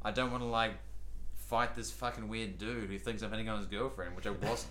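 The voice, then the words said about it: Non-American foreign accent. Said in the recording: “As an American, we prize accents very heavily ... even hearing your accent”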